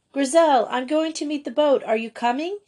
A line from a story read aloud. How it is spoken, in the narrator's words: shouted Joey outside the Chalet School